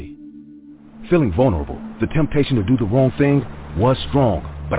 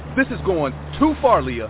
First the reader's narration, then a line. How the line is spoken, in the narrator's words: I shouted